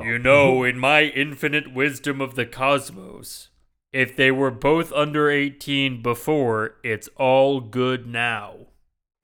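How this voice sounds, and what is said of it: Imitates a robot character's voice. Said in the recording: “my Optimus Prime impression.”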